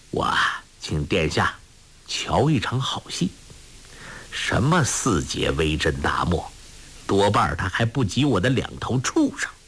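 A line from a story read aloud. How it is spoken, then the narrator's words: Low voice, slight smile. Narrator (Chinese): 桑坤微微一笑，低声说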